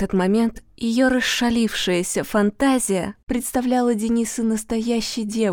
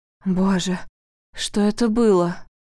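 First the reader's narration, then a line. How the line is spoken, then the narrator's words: Moaning. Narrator (Russian): простонал Денис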